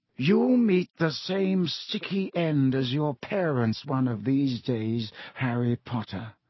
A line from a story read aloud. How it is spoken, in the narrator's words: he said softly